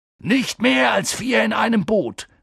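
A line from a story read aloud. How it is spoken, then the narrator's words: Calling out. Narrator (German): rief Hagrid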